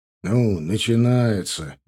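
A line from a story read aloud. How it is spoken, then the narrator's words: Displeased grumble. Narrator (Russian): недовольно проворчал наш староста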